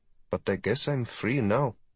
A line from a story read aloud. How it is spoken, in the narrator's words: Her face tightened in frustration before she muttered